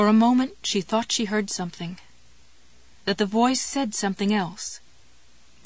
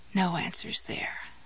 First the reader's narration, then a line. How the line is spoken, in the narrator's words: muttered